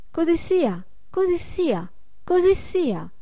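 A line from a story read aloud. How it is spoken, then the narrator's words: Joyful crackling chorus. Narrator (Italian): gridarono tutti con voce lieta e crepitante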